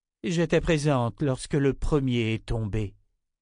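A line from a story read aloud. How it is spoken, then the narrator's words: Sighed. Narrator (French): soupira Nietzsche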